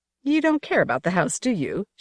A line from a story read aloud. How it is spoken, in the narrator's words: She said, and laughed